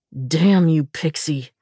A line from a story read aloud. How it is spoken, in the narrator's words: he snarled